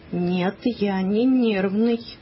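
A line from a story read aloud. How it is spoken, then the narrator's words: Calm, measured voice. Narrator (Russian): Папа сказал спокойным, размеренным голосом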